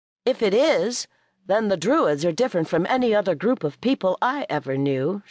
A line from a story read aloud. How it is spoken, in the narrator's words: said dryly